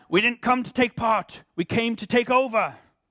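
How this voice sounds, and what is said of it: Attempted Irish accent, poorly done. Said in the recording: “I'll try and do my Irish accent... Oh, this is going to be bad... That was more Liam Neeson.”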